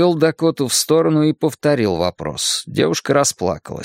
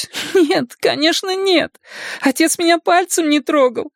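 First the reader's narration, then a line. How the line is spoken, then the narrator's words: Sobbing. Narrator (Russian): проговорила она, всхлипывая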